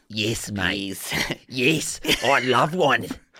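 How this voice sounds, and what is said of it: Put-on Australian accent. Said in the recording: “Would you want an Australian accent? ... An Australian accent, mate. Yes, from Australia.”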